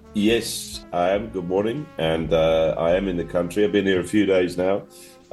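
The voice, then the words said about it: Croaky, slightly sick voice. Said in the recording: “my voice is a bit croaky because I picked up some sort of bug”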